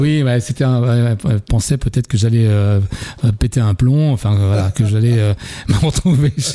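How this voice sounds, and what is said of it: Usual voice. Nothing is said of it.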